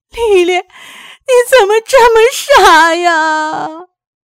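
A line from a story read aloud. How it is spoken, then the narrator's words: Sobbing. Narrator (Chinese): 痛哭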